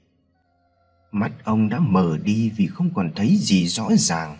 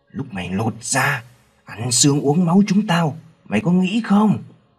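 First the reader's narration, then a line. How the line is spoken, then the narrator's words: Howling man. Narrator (Vietnamese): Ông Hưng rú lên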